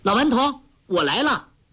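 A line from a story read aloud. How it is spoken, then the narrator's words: Calling out. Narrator (Chinese): 黄蓉叫道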